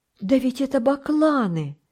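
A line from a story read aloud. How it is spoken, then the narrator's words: Exclamation. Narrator (Russian): воскликнул Томик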